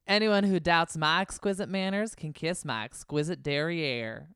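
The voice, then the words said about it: Put-on accent, fairly well done. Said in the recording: “Good with the accent. ... I'm like, this is going to be Australian. Get ready. But no, that was not bad.”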